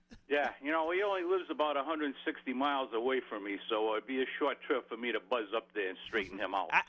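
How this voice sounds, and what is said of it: Soothing New England accent. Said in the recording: “you're very soothing New England accent.”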